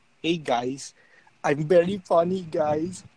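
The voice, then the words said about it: Loud, random impression of someone. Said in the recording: “my imitation ... Random and loud.”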